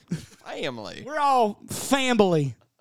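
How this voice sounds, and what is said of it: Fake Southern accent. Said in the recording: “try to fake a Southern accent ... Did you just put a B in the word family?”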